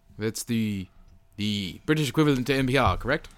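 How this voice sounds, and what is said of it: British broadcaster style voice. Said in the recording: “I'm doing my BBC voice. ... the energy is a little high still”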